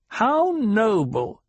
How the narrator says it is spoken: the Reverend Mother sneered

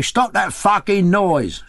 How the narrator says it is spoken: shouted several lodgers

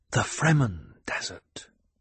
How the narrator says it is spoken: Paul whispered

